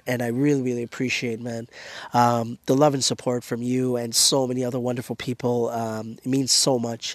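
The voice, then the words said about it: Strained, hoarse voice from illness. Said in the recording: “losing my throat and ... losing my voice ... under the weather”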